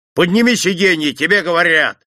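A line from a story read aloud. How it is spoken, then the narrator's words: Bark. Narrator (Russian): рявкнул Чураков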